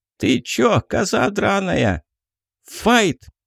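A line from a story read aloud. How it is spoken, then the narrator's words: Sudden shout, otter. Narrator (Russian): Вдруг выкрикнула выдра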